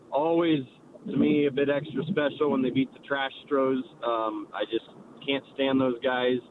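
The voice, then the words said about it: Hoarse voice. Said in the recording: “I am a bit hoarse ... So I'm a bit hoarse”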